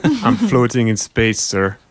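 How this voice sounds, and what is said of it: Put-on accent speaking English. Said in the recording (French): “j'aime ton accent”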